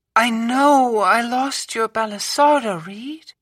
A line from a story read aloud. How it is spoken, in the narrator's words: she called, her voice sickeningly sweet